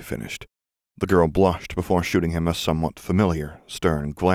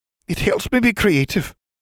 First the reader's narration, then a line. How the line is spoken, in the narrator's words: said hotly